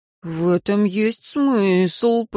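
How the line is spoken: Drawled. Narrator (Russian): протянул Рон

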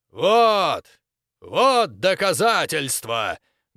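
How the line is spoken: Loud commentary. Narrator (Russian): громко комментировал Грок

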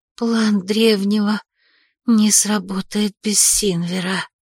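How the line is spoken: Whisper. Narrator (Russian): прошептала Магесса

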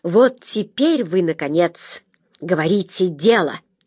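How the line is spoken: Spiteful remark. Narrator (Russian): заметил Дженни злобно

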